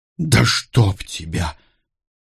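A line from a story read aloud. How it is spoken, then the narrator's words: Involuntary hiss. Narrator (Russian): невольно прошипел тот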